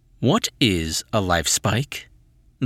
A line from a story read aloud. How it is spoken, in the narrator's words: the voice asked